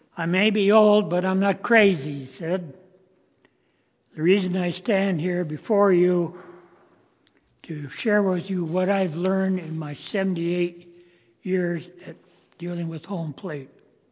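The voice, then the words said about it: Raspy voice. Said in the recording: “His voice is getting raspy, like mine.”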